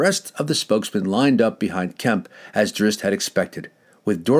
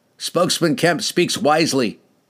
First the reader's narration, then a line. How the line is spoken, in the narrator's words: he said